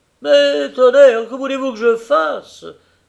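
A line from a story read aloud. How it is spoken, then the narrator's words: Exclaiming. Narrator (French): s'écrie-t-il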